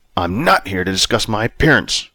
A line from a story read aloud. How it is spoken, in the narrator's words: Robert snapped